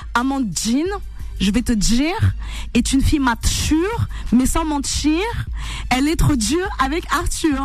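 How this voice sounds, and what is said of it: Attempted pied-noir French accent. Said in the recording (French): “ça me fait penser au pied noir, là, plutôt ... ça rendait un accent pied noir ... j'ai essayé, je suis pas très calé”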